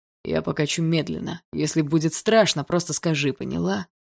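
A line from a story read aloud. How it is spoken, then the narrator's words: Muffled, low voice. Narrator (Russian): Глухо сказал он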